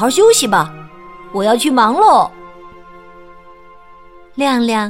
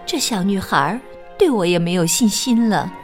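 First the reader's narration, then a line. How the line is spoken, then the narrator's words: Quiet muttering. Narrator (Chinese): 小仙女忍不住小声的嘀咕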